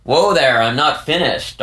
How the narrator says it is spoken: Dari barked

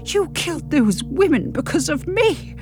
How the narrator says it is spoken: I croak

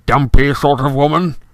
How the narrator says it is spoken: he growled finally

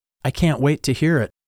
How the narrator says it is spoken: my mom said softly

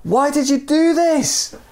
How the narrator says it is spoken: he yelled

